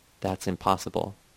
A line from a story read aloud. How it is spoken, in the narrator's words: In a barely audible voice, he said